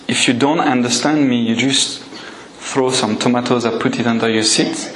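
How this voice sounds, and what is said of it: Speaks English with a foreign accent. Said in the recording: “You will excuse my accent.”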